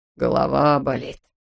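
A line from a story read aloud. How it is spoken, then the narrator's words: Moaning. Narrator (Russian): стонал хирург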